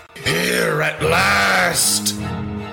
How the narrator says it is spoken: croaked behind him

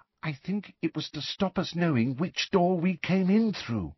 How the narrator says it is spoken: said Ginny in a hushed voice

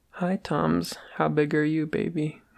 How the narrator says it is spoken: Wilbur asked

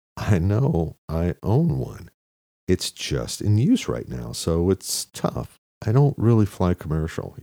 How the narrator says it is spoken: he said

